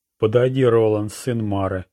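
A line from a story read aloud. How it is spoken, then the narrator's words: Solemn proclamation. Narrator (Russian): торжественно провозгласил Луиджина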